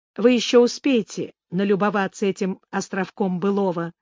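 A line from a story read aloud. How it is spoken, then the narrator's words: Plain. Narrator (Russian): сказала Лора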